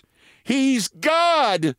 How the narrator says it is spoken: screamed a Plymouth Rock Hen, and the others took up the cry

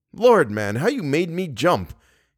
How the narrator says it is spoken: he exclaimed

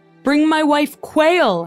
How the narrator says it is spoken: Henry bellowed

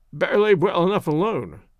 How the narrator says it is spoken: grumbled Wilson

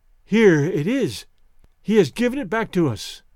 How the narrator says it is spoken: Her voice trembled as she said

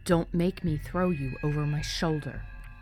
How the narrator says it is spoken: his voice hardened

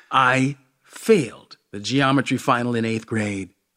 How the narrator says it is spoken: Zinhil says

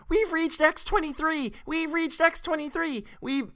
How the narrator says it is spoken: screaming

